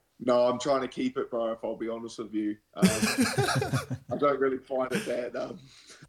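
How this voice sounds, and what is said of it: Thick coastal New Zealand accent. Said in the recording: “You still got that nice, thick, coasty accent.”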